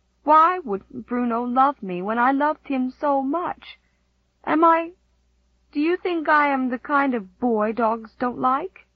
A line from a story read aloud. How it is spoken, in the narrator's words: he said in a choked voice